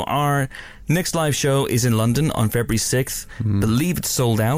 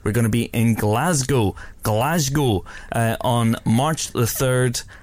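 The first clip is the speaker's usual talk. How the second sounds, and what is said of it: Attempted Scottish accent, not Glaswegian. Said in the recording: “That may not be a Glaswegian accent ... you're going to get banned from Scotland for that ... Scotland, it's just a general accent”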